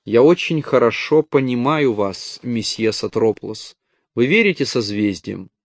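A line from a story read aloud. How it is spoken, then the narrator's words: Quiet. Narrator (Russian): Она тихо проговорила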